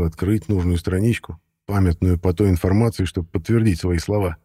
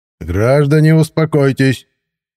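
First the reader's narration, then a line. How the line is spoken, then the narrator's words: Loud booming voice. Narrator (Russian): зычным голосом остановил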